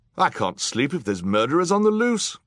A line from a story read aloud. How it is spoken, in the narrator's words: cried another guest